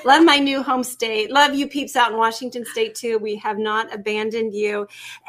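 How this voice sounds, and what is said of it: Slight Tennessee twang. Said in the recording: “I'm getting that Tennessee twang a little bit ... I can get that y'all in there”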